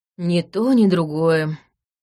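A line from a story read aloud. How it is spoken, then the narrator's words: Weary. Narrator (Russian): устало ответил тот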